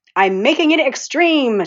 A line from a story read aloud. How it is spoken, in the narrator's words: she shouted